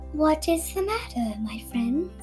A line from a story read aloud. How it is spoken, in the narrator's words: She asked kindly